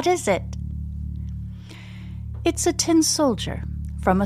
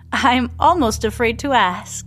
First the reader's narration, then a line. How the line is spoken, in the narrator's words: Samantha laughs nervously